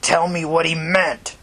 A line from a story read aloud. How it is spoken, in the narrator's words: he growled